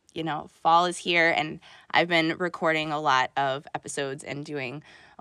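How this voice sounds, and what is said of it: Hoarse, scratchy voice. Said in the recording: “my throat. It's really, really sore this morning ... my throat was like super dry and hoarse ... the scratchy awfulness of my voice”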